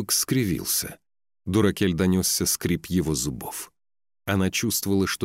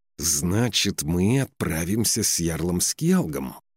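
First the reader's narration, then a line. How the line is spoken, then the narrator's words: Through gritted teeth. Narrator (Russian): сквозь зубы процедил он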